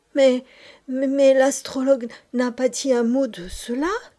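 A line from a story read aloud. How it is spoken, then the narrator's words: Highly emotional exclamation. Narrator (French): s'écria le lama dans l'excès de son émotion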